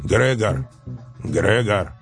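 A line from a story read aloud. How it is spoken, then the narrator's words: Quiet pitiful, sister. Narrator (Russian): тихо и жалостно говорила сестра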